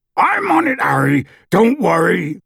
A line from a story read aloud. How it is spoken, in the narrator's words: Hagrid yelled